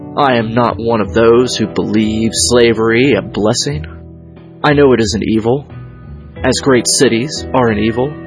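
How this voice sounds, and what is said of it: Slight Southern accent. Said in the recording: “slip into this kind of, like, Southern gentleman sort of style of speaking ... I have a slight Southern accent at this time”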